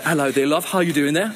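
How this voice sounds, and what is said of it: Put-on British accent. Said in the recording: “this lovely British accent ... I can do a British accent, but it's fake”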